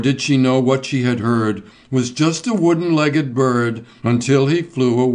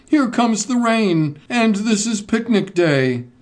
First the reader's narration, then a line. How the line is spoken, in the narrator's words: cried